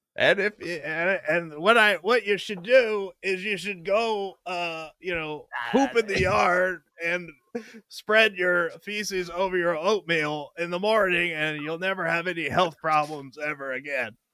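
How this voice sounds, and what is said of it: Poor impression of a cabinet member. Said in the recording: “my favorite cabinet member, which is not a good impression”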